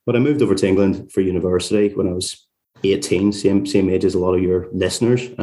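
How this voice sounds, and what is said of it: Northern Irish accent. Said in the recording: “listeners could probably tell from my accent that I'm not sort of from London originally. I'm from a place called Carrickfergus, just outside Belfast”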